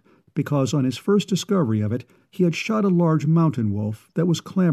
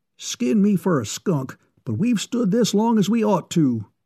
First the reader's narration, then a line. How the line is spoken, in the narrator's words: exclaimed Baldy Bignell